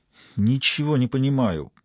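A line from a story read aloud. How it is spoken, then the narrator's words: Muttering. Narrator (Russian): пробормотала доктор Пульчилло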